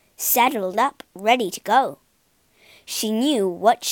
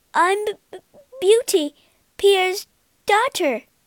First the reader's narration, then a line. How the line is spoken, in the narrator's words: she stammered